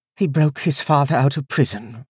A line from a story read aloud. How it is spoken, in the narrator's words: Ulsa said wearily